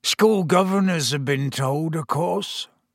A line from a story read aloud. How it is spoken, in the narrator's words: said Hagrid miserably